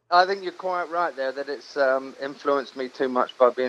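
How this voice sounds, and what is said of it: Hampshire English accent, partly American. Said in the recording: “You sound just like us ... between the two. It's a strange mixture. ... I've still got that Hampshire accent, because where I was born was Southampton, which is really right down south. And so we have a bit of that ooh-ah going on, you know, the pirate thing.”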